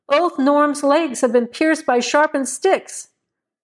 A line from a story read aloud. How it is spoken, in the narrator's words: one of the men in the party called out